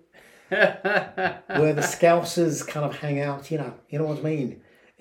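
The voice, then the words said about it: Put-on Scouse accent. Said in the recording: “That's supposed to be a Scouse twang”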